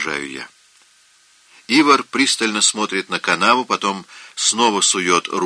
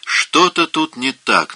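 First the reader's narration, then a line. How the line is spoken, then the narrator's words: Irritated, curt. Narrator (Russian): наконец раздраженно бросает он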